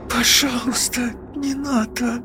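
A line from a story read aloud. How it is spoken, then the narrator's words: Whisper. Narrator (Russian): прошептала она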